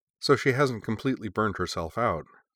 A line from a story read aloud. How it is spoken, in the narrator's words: said Erica